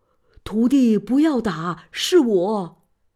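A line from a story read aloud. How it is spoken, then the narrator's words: Shouting. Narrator (Chinese): 这个就大叫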